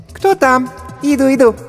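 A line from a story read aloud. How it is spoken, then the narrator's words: Squeaky female voice. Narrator (Russian): пропищал женский голосок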